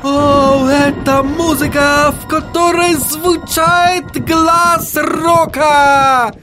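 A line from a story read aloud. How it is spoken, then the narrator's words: Shouting. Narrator (Russian): закричал он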